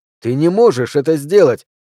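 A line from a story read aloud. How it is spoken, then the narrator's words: Shouting. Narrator (Russian): закричал я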